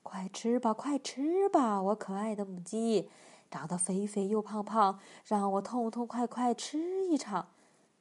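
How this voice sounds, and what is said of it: Quiet murmured muttering. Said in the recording (Chinese): “他小声念叨着”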